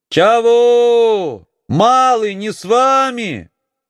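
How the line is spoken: Distant shout. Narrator (Russian): кричала Акулина из-за отвершка

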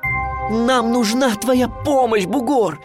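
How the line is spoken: Near shouting. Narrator (Russian): почти кричал я

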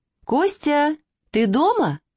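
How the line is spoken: Joyful woman's voice. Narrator (Russian): радостно сказал женский голос

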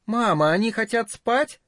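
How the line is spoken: Little girl, loud, mysterious. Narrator (Russian): Маленькая девочка громко и таинственно сказала

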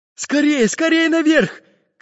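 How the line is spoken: Shouting. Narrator (Russian): крикнул пиратам Карандаш

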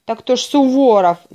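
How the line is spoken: Shout. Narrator (Russian): закричал начальник завода

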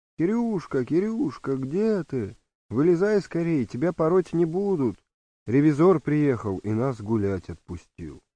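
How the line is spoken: Children shouting cheerfully. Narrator (Russian): товарищи-ребятишки весело кричат

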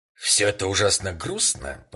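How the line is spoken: Displeased tone. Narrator (Russian): заметил мистер Скотт недовольным тоном

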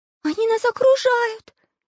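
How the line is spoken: Girl's frightened scream. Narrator (Russian): испуганно закричала Настенька

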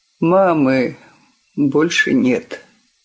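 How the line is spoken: Strange, changed voice. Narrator (Russian): не поворачиваясь, чужим голосом произнес

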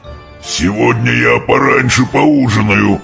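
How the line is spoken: Exclaiming, then wild laughter. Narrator (Russian): вскричал он, и зашелся в приступе дикого хохота

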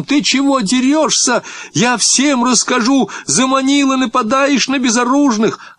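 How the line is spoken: Shrill girlish shout. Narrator (Russian): Гога закричал тонким девчоночьим голосом

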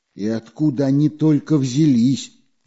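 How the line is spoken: Frightened asking. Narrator (Russian): все еще испуганно спрашивал Карандаш

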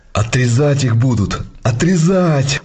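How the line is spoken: Joyful shout. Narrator (Russian): радостно закричал Масленников

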